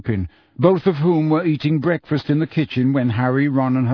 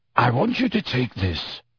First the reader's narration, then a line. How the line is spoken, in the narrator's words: he said quietly